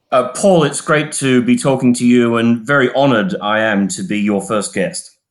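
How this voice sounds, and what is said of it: British accent. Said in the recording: “have a fairly British accent”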